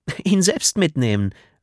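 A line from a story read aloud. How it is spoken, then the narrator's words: Woman laughing. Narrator (German): lachte die Frau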